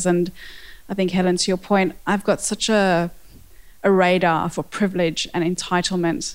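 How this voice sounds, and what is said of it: South African accent. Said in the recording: “I have a South African accent”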